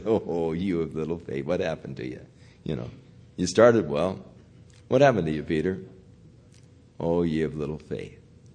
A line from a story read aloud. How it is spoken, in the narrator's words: Jesus chuckle as he said